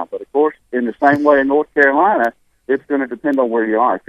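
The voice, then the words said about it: Thick Alabama accent. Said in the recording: “a really thick Alabama accent ... Probably about as thick as I'm talking right now”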